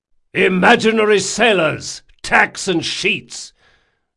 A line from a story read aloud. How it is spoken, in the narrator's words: Jean hollered his instructions